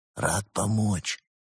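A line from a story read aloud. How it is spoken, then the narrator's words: Giant's whisper. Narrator (Russian): прошептал великан в ответ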